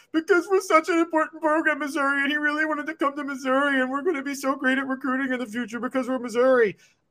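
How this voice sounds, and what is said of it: Whiny mocking voice. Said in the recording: “That was a whiny voice.”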